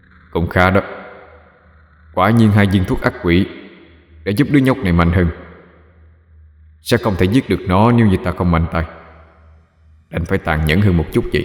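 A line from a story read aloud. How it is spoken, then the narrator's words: Mutter. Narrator (Vietnamese): Bạch Hạc lẩm bẩm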